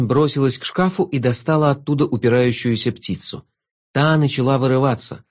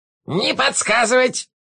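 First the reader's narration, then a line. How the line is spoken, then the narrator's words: Barked. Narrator (Russian): рявкнул мастер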